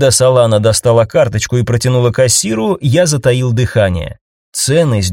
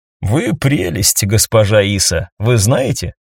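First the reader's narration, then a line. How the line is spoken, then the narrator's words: Laughing. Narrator (Russian): рассмеялся я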